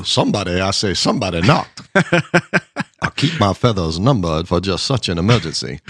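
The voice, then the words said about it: Blustery Southern cartoon rooster voice. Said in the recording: “My foghorn leghorn impersonation.”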